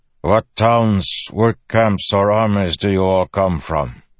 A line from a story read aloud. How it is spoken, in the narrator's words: His voice had a strange cadence, similar to the Parshendi Kaladin had heard on the Shattered Plains